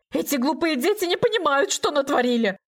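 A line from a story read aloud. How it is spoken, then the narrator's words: Shrill squeal. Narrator (Russian): взвизгнул Анатолий Сергеевич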